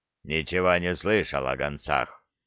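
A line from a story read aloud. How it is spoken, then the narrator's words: Grumbling orc. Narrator (Russian): проворчал орк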